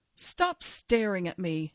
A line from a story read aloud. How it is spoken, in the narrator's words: snapped